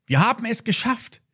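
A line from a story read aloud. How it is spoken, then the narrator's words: Calling out. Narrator (German): rief Lilly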